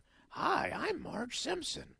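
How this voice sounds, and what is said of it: Poor Marge Simpson impression. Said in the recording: “my Marge Simpson impression isn't good. It's nothing. It's a throwaway.”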